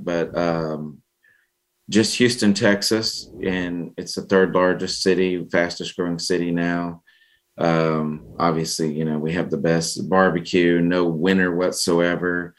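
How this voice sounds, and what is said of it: Slight Southern US accent. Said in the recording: “have a little bit of the Southern accent”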